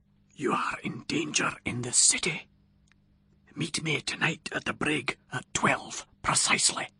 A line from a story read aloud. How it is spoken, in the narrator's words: a voice from behind me whispered distinctly in my ear